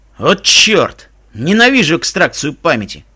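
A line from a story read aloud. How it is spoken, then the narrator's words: Grumbling through borrowed mouth. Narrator (Russian): проворчал тем, что ощущалось, как мой рот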